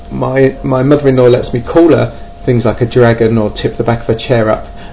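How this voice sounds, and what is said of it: Southeast English accent. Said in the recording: “down in Kent, which is the southeast of England, hence my rather wonderful accent”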